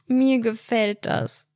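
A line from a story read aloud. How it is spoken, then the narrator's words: Whimpering. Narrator (German): wimmerte Helena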